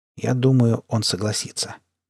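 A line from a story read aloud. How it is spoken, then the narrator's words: Quiet. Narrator (Russian): тихо произнес доктор Степ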